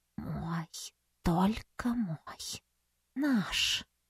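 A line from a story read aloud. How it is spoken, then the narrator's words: Purring. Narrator (Russian): промурлыкала Ариша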